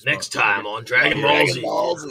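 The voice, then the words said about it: Dragon Ball Z narrator voice. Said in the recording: “when that narrator voice hit”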